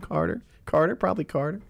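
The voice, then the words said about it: Imitates another person's voice. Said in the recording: “my Pete Holmes imitation”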